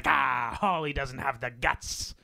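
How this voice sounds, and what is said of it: Rough Irish accent imitation. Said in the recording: “Is that your Irish accent? ... That's my Gerard Butler. ... Irish accent. ... Very rough around the edges.”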